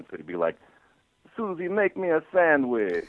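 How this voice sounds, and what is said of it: Hungarian accent impression, falling sentence endings. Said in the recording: “Gabor is from Hungary, and he has that wonderful accent ... what we thought was funny about Gabor's accent was sentences tended to end, they'd kind of go, they'd go down at the end ... his voice would go down at the end ... we all do really lame Gabor impersonations”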